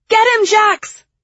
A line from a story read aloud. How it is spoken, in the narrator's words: I shouted